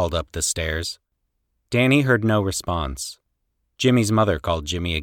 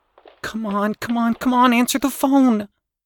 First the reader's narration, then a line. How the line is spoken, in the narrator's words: Danny said urgently